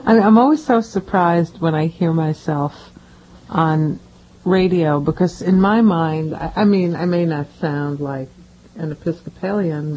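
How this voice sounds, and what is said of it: New York Brooklyn accent. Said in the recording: “you got your New York accent... She sounds like she's from Brooklyn”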